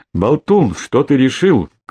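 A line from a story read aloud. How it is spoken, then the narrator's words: Shout from the yard. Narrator (Russian): крикнули со двора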